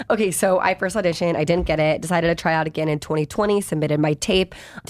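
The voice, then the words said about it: Talking really fast. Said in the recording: “I'm talking really fast”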